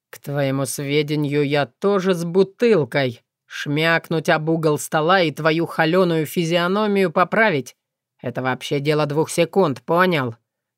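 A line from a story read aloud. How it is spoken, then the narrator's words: Quiet menacing growl. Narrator (Russian): С тихой угрозой рыкнул волк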